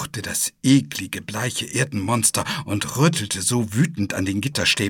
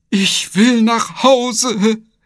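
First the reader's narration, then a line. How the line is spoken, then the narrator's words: Sobbing. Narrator (German): schluchzen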